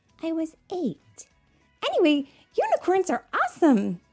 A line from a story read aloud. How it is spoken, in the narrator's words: Rookie exclaimed